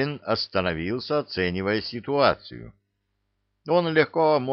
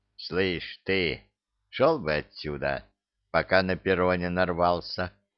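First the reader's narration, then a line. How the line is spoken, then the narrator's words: Lazy words through teeth. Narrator (Russian): Лениво процедил один из бандитов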